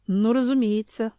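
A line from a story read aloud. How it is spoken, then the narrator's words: Gloomy laugh. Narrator (Russian): мрачно рассмеялся Семён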